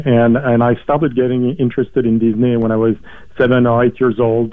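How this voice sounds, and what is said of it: French accent. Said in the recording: “as you can probably hear from my accent and from my name, I'm French”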